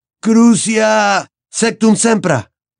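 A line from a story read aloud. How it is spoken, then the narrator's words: Frenzied roar from the ground. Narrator (Spanish): bramó desde el suelo, como un desaforado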